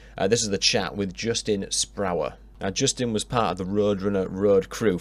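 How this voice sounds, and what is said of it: Yorkshire English accent. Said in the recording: “in a Yorkshire accent”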